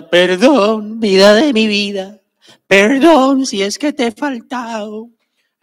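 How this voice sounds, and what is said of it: Put-on Mexican accent, singing. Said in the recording (Spanish): “Con acento mexicano.”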